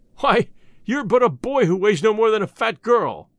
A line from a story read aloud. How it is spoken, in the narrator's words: exclaimed their captain, a great bony fellow who was named Kambula